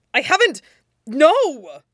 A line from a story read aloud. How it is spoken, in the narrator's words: splutters Jiang Cheng